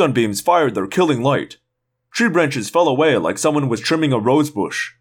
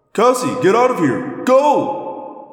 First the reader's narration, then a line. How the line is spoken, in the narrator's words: I yelled